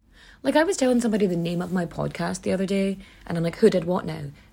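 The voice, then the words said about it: Irish Donegal accent. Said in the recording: “that's not how my dialect pronounces it, because I'm from Donegal ... I know I have an accent, and some phrases will sound differently just because I'm saying them ... my accent pronounces my eyes like e's to other people”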